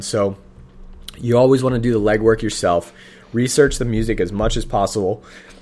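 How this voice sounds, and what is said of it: Hoarse, fading voice. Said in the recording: “I'm losing my voice right now.”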